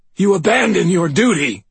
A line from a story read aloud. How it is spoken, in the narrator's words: Douglas gasped